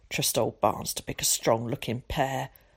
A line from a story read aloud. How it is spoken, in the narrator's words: muttered Tom to himself